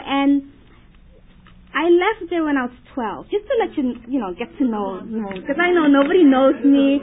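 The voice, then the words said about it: Dutch-influenced accent in English. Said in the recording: “we speak Dutch, so that's why my accent came, you know, it's coming in sometimes ... English is my second language”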